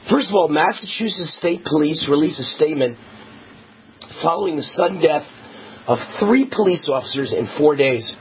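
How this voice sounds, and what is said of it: Hoarse, strained voice. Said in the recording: “I'm losing my voice because I've been screaming all day.”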